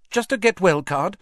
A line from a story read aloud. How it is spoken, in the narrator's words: said Hermione hastily